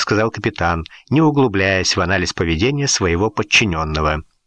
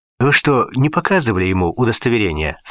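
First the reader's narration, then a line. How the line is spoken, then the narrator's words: Plain. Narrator (Russian): спросил капитан Гурова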